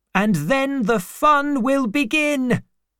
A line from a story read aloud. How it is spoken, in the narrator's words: cried